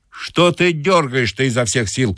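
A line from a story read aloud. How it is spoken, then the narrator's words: Shouting. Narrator (Russian): кричал банщик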